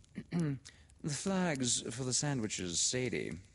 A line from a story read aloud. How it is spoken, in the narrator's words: echoed dreamily